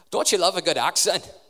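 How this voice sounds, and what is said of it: Put-on Scottish accent. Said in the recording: “That was Scottish, actually.”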